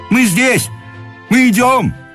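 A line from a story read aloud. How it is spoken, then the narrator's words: Shout. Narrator (Russian): закричал чиновник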